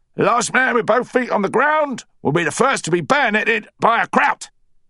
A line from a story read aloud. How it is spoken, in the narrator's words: Sergeant Major Dawson entered the hut and bellowed